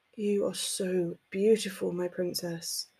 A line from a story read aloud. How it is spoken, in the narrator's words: moaned quietly against her skin